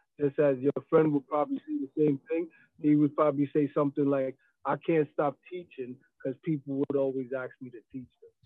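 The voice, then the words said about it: American accent. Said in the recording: “he's got an American accent”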